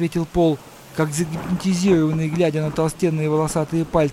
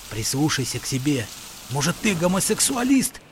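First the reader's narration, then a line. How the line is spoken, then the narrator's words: Quiet question. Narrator (Russian): Джон не удержался от продолжения игры и тихо спросил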